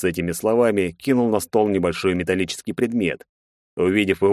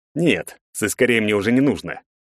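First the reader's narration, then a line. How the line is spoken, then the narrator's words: Angry reply. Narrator (Russian): злобно ответил Бартынов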